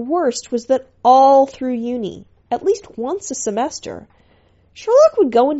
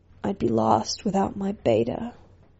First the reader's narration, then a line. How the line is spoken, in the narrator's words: mumbling